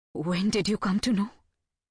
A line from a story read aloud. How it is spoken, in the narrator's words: asks, her voice quivering